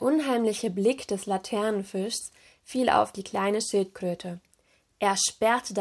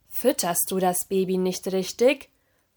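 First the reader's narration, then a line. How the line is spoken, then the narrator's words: Stern question. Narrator (German): fragte der Laternenfisch streng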